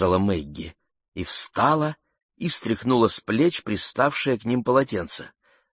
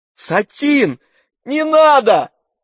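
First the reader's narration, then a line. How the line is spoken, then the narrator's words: Shouting. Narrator (Russian): закричала Мэгги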